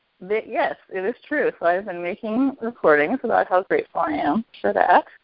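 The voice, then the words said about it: Sick-sounding voice. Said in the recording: “as you may be able to hear, I'm a little bit sick, so my voice is a little different”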